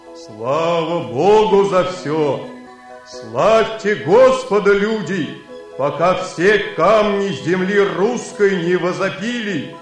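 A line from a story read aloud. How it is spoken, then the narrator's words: Stone exclaiming in human voice. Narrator (Russian): камень … воскликнул он человеческим голосом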